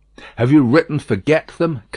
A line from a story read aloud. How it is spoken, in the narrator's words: asked